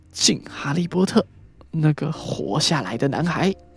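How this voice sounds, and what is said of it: Deliberately lowered, hushed voice. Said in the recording (Chinese): “用一种刻意压低的声音说”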